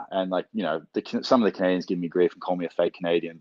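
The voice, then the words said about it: Non-Canadian English accent. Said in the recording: “I just speak with a different accent... especially because of my accent”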